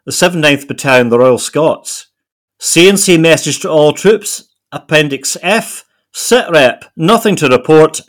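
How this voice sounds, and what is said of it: Put-on Edinburgh Scottish accent. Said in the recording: “I'm going to try and do my best Morningside Edinburgh accent ... This is my best Edinburgh accent”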